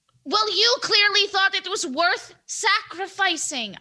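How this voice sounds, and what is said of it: Yelling, raised angry voice. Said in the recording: “I'm sorry that I'm yelling.”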